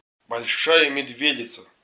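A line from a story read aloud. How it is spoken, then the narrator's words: Plain. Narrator (Russian): сказал Володь Захаров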